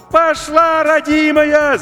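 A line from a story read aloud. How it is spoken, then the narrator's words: Deafening shout over radio. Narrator (Russian): закричал Максим, оглушая радиоканал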